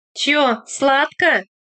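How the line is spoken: Laughing. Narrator (Russian): Марьяша рассмеялась

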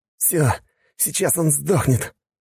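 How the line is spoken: Wounded archer gasping. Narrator (Russian): выдохнул слова вместе с кровью изо рта лучник

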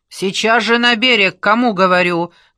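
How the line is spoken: Shouted. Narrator (Russian): крикнул Сиверс

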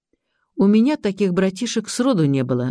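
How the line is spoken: Plain. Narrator (Russian): ответил Павел

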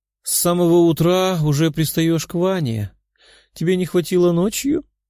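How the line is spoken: Laughing. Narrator (Russian): хохотнула подошедшая Светлана

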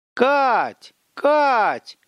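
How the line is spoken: Young man shouting from doorway. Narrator (Russian): крикнул парень из открытой двери

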